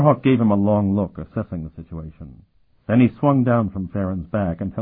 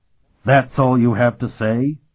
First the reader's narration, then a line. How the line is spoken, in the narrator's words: Ulysses exclaimed, at the imagined insult